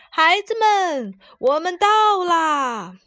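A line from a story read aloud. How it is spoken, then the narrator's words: Shouting from outside. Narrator (Chinese): 外面传来了叫喊声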